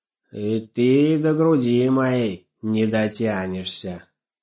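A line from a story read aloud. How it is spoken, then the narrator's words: Menacing growl. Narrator (Russian): желая напугать щенка, он зарычал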